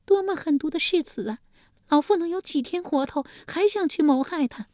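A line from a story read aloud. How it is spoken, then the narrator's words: Furious wailing. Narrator (Chinese): 晋献公气得又是咬牙又是跺脚，立即也嚎啕大哭起来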